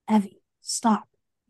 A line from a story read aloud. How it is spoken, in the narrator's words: whispered